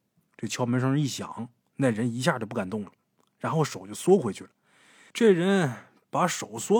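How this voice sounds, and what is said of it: Usual voice. Nothing is said of it.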